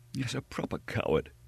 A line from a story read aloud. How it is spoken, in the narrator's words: gasped D'Artagnan